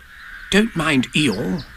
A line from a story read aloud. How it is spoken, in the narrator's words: whispered Rabbit to Pooh